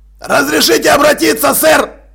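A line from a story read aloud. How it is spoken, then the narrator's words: Barked. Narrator (Russian): рявкнул Джекрам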